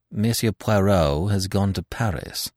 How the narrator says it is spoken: replied coldly

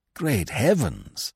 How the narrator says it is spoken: he exclaimed in distress

